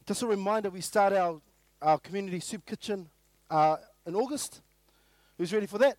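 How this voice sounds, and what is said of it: Voice sounds a bit funny. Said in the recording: “my voice is a bit funny... It sounds a bit funny this morning”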